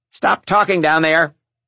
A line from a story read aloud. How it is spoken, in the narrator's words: Sister Frances shouted from her desk